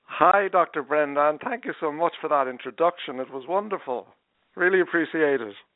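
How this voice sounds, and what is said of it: Charming Irish accent. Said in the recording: “that charming accent ... I'm from Dublin in Ireland”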